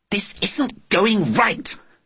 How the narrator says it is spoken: she hissed

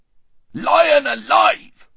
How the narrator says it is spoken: roared the dwarf

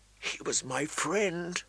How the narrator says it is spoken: Arya whispered into her plate, so low that no one could hear

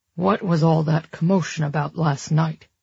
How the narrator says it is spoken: Harrison grumbled into his coffee

